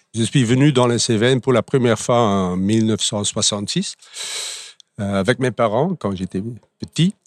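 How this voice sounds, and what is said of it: Belgian Flemish accent in French. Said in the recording (French): “par rapport à votre accent ... vous ne venez pas des Cévennes ... je suis d'origine belge, flamand”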